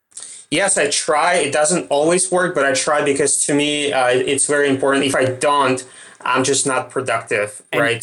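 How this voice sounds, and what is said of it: Russian accent. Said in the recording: “It's my Russian accent.”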